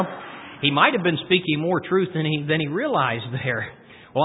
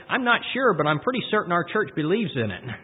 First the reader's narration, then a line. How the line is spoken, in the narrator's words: the little boy ... he said